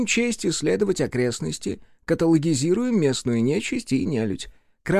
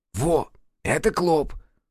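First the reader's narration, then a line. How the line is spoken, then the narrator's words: Whisper in the ear. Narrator (Russian): шепнул на ухо Сашка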